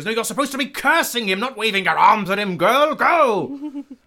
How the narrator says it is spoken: Hattori yells

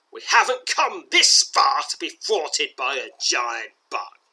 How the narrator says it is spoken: he sneers, his voice far stronger and more sinister than you have ever heard it

